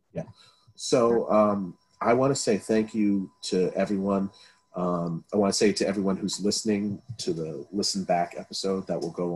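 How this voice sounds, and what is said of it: Tired, fading voice. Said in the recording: “I'm tired, my voice is starting to go”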